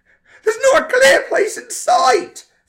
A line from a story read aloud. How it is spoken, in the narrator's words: Frank screamed into the walkie-talkie